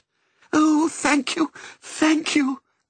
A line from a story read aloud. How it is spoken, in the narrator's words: cried Missus